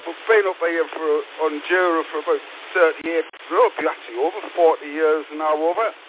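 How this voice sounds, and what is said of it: Sunderland (Mackem) English accent. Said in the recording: “a bit of a Sunderland accent ... Macam accent ... You never lose the twang”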